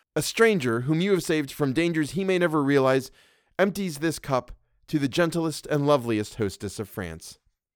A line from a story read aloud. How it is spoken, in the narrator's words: I faltered